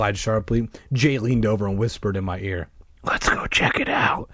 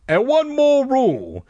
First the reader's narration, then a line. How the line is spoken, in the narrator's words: he called out